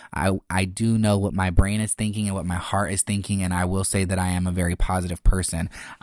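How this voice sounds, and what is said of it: Monotone, slightly sarcastic-sounding voice. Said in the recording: “I'm very monotone and I kind of sound sarcastic.”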